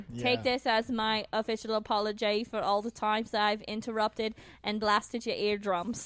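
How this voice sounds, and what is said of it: Put-on accent. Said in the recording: “I don't know if I accept the apology with an accent. ... it's not real.”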